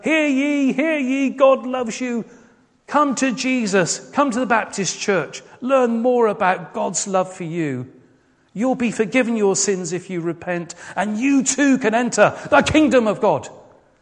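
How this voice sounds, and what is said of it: Mock street-corner preacher proclamation. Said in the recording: “do a terrible impersonation ... stand on the street corner or stand on a soapbox and go”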